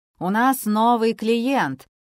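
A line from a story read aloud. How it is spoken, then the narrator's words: Solemn announcement. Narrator (Russian): торжественно объявил он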